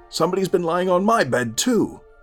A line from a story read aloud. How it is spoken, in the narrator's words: each called out